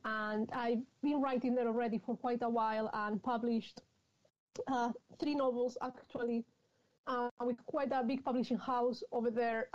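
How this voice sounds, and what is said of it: Spanish accent in English. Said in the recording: “you can tell possibly because of my accent, I'm from, from Madrid in Spain”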